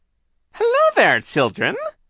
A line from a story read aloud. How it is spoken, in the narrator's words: she called in her phony high voice